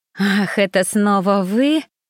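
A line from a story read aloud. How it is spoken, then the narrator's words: Through clenched teeth, contemptuous. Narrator (Russian): процедила мадам Жужу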